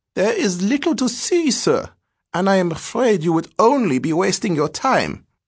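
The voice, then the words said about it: Hesitant voice. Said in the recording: “in a hesitant voice”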